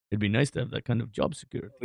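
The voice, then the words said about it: Russian-sounding accented voice. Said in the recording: “you said it like a Russian accent.”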